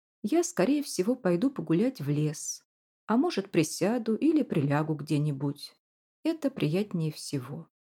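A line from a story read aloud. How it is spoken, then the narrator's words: Calmer tone. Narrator (Russian): продолжал Прот, теперь уже более спокойным тоном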